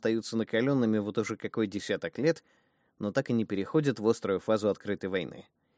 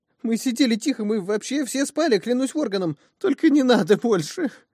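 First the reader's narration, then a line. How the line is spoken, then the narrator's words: Breaking into stifled sobs. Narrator (Russian): Окончание этой чувственной речи потонуло в судорожных рыданиях, которые старались сделать максимально бесшумными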